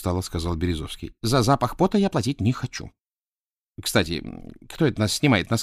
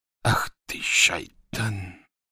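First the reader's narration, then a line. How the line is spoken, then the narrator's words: Muttered. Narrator (Russian): пробормотал Радуев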